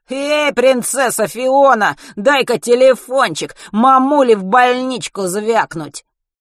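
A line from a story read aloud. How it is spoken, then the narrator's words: Flattered nasal shout. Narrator (Russian): Вертлявый, польщенный одобрением товарищей, гнусаво прокричал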